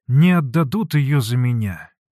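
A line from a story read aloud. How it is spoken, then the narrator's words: Sad. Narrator (Russian): грустно сказал Алексей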